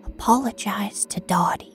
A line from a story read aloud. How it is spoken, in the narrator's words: she whispered into the crease of my throbbing neck